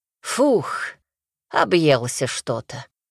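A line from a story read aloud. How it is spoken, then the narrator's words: Sated exhale. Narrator (Russian): выдохнул купец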